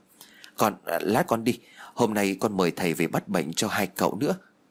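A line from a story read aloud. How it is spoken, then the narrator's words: Startled stammering. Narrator (Vietnamese): Duyên bị bà Phú làm cho giật mình, cho nên bèn lắp bắp nói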